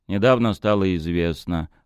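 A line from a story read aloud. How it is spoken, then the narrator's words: Even, level voice. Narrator (Russian): ровным голосом сказал Утолин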